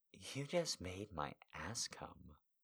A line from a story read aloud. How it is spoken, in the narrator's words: She moaned